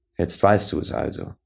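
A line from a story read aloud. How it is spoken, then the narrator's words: Serious and gentle. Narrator (German): sagte der andere ernst und sanft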